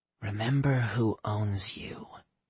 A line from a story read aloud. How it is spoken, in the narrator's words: Diana whispered in Jack's ear